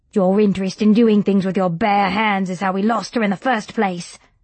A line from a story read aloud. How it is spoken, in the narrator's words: snapped Robert